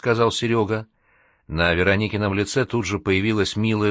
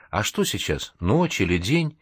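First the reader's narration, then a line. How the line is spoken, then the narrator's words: Bewildered, confused question. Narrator (Russian): в полном замешательстве растерянно спросила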